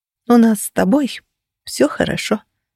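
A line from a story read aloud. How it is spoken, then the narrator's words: Soft objection. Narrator (Russian): мягко возразила я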